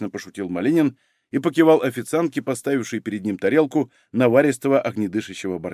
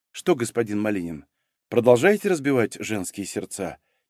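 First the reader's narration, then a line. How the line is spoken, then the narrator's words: Quiet, amused question. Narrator (Russian): тихо спросила Соня, которую развеселила ревность официантки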